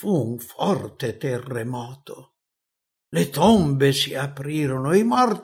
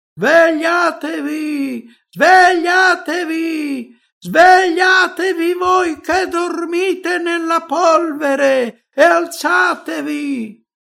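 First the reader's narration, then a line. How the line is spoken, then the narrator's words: Shouting. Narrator (Italian): gridando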